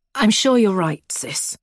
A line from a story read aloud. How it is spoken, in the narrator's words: sighs